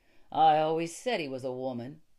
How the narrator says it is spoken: added Montigny with a sneer

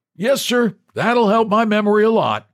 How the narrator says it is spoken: the old man, who grinned and shouted

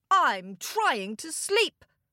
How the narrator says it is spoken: roared the king

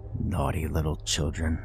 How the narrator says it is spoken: say in a cold, raspy voice

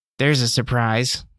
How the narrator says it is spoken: she said with a groan of exertion

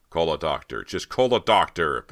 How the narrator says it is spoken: Bo shouted

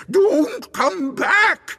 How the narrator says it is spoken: it screamed

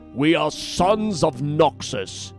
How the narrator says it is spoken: bellowed

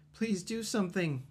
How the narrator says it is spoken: Kaz cried

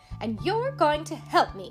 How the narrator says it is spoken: snapped

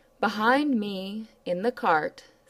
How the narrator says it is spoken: said he

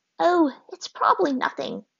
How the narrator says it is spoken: his grandmother said with a sigh

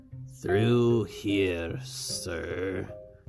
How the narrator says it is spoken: the crippled man croaked

